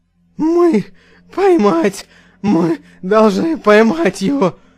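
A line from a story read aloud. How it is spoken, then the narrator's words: Breathless, strained. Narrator (Russian): Тяжело дыша, выдавил из себя Мик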